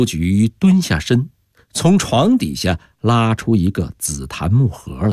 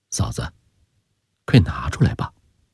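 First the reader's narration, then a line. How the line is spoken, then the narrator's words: Low voice. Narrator (Chinese): 翠莲放低声音说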